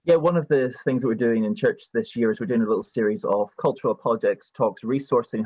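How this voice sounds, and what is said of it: British Isles accent. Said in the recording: “Scottish, Irish, English, British accent like this ... it just sounds more credible ... It does give an air of authority and learnedness ... you not only back up the accent”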